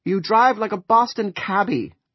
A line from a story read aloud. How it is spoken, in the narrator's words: Julia said indignantly